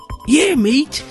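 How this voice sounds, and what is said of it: Poor put-on Australian accent. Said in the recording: “Nah, that's a bad impression.”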